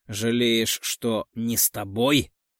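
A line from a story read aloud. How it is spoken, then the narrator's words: Growling. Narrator (Russian): Не сдерживаю рычания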